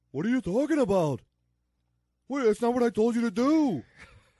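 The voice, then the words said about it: Imitates another person's voice. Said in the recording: “Can you do an Alan Arkin impression? ... I've never tried it, but I will.”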